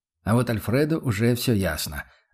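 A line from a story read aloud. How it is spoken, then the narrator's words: Calm. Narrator (Russian): отозвался он по-прежнему спокойно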